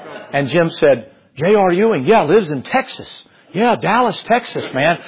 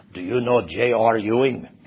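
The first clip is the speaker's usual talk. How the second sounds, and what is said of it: Put-on Romanian accent. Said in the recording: “That's my Romanian accent.”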